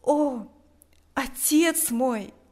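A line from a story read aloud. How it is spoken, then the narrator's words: Exclamation. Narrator (Russian): воскликнул он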